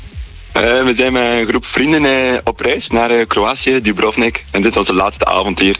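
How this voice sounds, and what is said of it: East Flemish regional accent. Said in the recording (Dutch): “je hebt een leuk accent ... Van Oost-Vlaanderen, in de buurt van Gent.”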